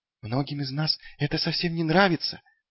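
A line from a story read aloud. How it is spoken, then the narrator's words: Whisper. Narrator (Russian): прошептал он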